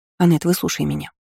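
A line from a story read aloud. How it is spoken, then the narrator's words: Hurried speech. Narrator (Russian): торопливо заговорила Марта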